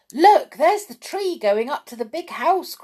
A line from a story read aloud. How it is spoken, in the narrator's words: cried Fred